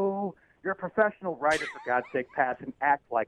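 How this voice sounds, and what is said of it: Usual voice. Nothing is said of it.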